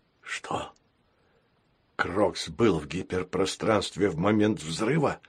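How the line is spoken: Hoarse, strained. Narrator (Russian): прохрипел президент, собирая в кулак всю свою волю

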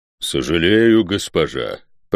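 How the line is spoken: Booming hum. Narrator (Russian): прогудел избранный

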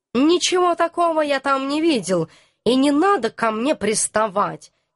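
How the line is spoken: Suddenly irritated. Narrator (Russian): неожиданно раздраженно отреагировал наш товарищ

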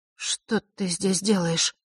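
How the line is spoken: Confused mumble. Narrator (Russian): растерянно пробормотала она

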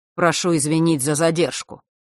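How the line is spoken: Dry, curt. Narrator (Russian): сухо произнес сын Острогора

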